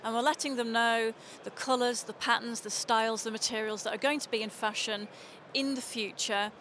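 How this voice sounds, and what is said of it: Liverpool English accent. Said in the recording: “you certainly have an accent ... I'm originally from Liverpool”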